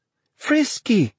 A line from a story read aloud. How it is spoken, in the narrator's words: she cried